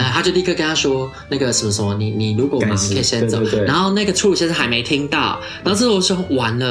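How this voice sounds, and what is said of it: Usual voice. Nothing is said of it.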